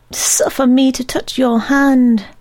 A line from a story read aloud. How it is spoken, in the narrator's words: pleaded Mr